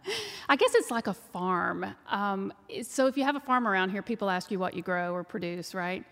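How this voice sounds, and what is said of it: Texas twang accent. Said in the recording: “you can tell by the twang that I'm from Texas”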